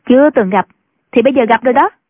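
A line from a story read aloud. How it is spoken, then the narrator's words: Sneering girl. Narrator (Vietnamese): thiếu nữ cười khẩy, nói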